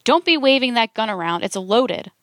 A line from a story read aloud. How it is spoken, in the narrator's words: Pierce barked